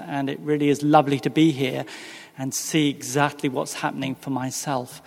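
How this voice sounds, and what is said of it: English accent. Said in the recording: “As you can probably detect, although I come from the Commonwealth of Virginia, I don't have a southern accent. And no, I'm not from Australia or New Zealand. I am, in actual fact, from England.”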